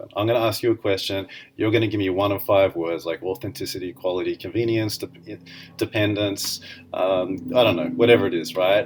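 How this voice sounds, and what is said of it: Accented, monotone, sarcastic speech. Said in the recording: “my accent, my sarcasm, and my monotone are part of my shtick”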